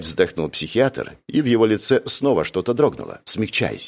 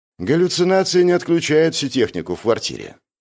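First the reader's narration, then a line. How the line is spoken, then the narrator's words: Gloomy. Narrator (Russian): мрачно сказал Джувон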